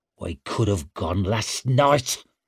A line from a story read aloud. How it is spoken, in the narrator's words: snarled Stour